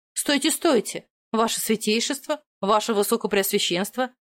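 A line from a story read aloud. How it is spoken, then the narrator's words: Barked shout. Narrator (Russian): рявкнула им в спины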